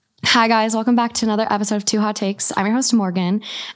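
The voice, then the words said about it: Soothing, calm podcast voice. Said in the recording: “You have a very nice podcast voice ... soothing ... equated it to Xanax ... Like you could read a sleep story”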